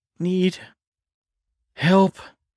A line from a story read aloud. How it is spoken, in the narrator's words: he panted